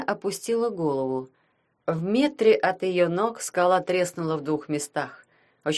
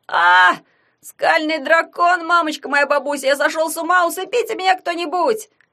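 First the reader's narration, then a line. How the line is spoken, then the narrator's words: Yelling from above. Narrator (Russian): завопил он сверху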